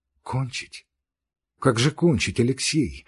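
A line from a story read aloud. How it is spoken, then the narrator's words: Quiet. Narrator (Russian): сказала она тихо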